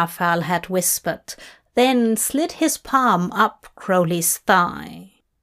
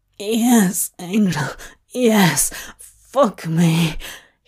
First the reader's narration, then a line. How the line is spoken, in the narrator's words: he pants